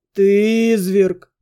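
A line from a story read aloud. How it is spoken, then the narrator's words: Moaning. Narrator (Russian): простонал друг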